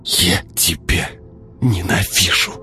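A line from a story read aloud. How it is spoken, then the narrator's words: Whispered. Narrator (Russian): шепнула она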